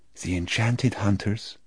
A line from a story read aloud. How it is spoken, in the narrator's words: almost a whisper